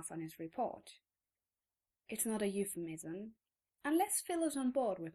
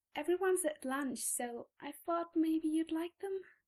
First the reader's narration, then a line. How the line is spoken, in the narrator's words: she says, her voice getting a little squeaky there at the end